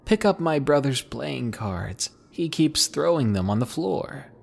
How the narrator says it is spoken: she was laughing so hard and told me

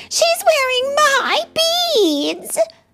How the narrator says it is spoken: cried Anastasia

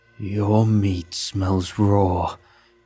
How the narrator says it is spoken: growled

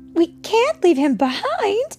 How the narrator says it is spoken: cried Mary

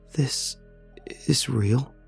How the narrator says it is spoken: I asked Alex, my voice an urgent whisper

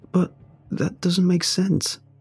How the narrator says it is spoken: murmur in shock

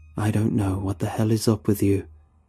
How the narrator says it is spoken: he says

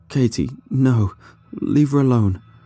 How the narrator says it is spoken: cried as he slowly drifted into unconsciousness

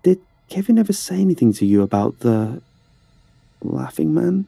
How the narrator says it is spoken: asked, hesitantly

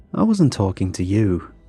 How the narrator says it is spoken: Luke said with a warm laugh

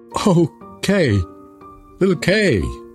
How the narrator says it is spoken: cried Gerda

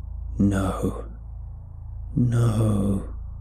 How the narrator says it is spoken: hissed

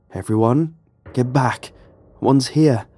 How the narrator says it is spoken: I called out

